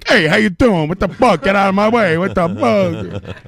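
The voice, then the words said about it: Put-on Brooklyn accent. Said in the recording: “he talks in a Brooklyn accent all the time.”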